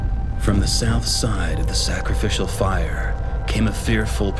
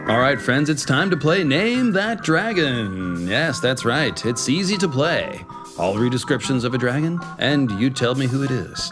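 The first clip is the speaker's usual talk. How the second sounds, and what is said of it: Game show host voice. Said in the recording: “game show voice”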